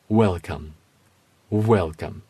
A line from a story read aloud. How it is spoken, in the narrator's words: it said